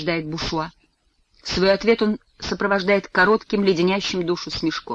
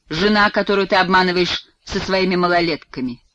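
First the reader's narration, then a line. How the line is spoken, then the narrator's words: Spiteful, through teeth. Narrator (Russian): злобно цедит Бушуа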